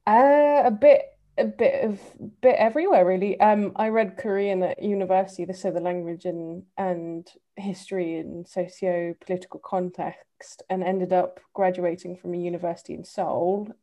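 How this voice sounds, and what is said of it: English accent. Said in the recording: “I'm a sucker for English accents ... whenever I hear an English accent ... he's got the accent, not me”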